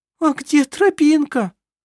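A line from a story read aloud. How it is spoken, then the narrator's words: Whimpering. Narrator (Russian): захныкал он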